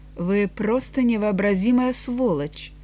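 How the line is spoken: Through clenched teeth. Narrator (Russian): Энтони процедил сквозь сжатые зубы

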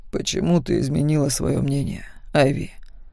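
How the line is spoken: Quiet question. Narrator (Russian): тихо спросил Макс

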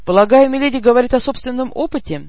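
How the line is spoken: Exaggeratedly cheerful commander. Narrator (Russian): преувеличенно бодро уточнил наш командир

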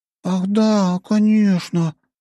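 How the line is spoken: Feigned enthusiastic exclamation. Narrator (Russian): воскликнула Настя с наигранным энтузиазмом

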